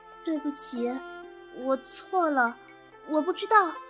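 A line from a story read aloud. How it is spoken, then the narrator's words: Embarrassed mumbling. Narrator (Chinese): 华提尼非常难为情，喃喃地说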